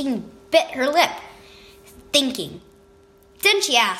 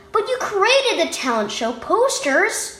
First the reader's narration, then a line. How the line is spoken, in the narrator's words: Justine exclaimed